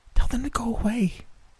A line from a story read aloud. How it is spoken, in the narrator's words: Sonia behind me whisper